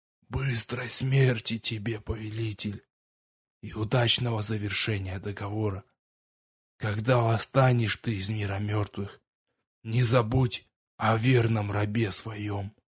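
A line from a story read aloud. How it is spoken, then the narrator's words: Soundless whisper after hoarse laugh. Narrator (Russian): Хрипло рассмеявшись, лорд беззвучно прошептал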